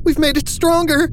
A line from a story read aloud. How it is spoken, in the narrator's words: Saul cried, his voice cracking